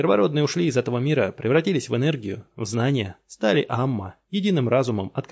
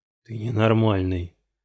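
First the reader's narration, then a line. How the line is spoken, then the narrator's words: Through gritted teeth. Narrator (Russian): процедил сквозь зубы Страйкер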